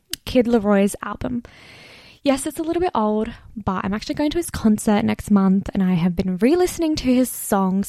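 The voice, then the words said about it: Scratchy, dry voice. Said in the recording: “my voice sounds really scratchy right now. It is so dry and I'm so dehydrated.”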